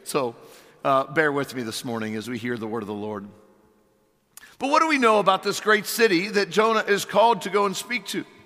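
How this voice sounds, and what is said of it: Strained, failing voice. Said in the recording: “I feel like I'm losing my voice, if my voice is gone by midway through this message ... here goes Dad's voice again”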